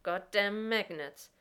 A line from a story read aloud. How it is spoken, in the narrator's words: John says bitterly